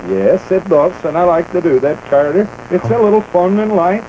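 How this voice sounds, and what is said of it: Put-on Nordic accent. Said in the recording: “Your Nordic accent?”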